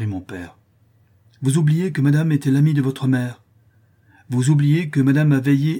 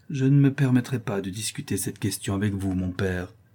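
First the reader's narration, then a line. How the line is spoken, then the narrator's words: Submissive voice. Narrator (French): dis-je d'une voix soumise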